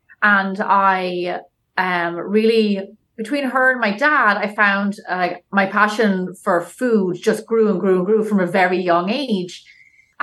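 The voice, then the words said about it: Irish accent. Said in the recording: “is that Irish accent real?”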